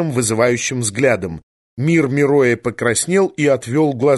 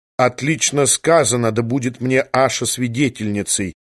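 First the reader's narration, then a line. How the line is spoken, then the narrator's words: Mutter. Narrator (Russian): пробормотал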